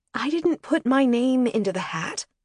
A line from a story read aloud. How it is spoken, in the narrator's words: Emily said, quietly